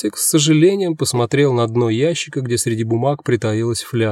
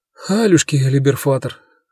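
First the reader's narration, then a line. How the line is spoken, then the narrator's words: Sigh. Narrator (Russian): вздохнул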